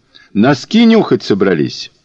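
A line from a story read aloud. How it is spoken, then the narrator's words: Loud, cheerful, encouraging. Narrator (Russian): Он говорил громко и бодро, подбадривая ее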